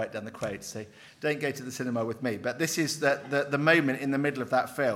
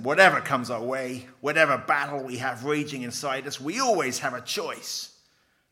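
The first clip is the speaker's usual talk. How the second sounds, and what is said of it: Put-on film character accent. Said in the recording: “I'll try and do it in the accent.”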